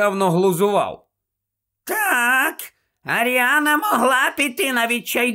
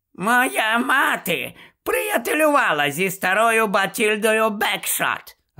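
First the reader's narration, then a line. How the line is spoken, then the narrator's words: Cheerful. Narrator (Ukrainian): радісно повідомила тітонька Мюріель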